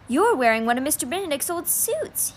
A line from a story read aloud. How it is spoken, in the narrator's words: he exclaimed